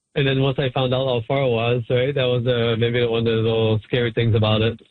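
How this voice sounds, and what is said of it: French accent in English. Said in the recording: “I still got my French accent”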